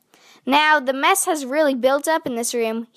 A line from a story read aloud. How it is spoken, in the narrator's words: he said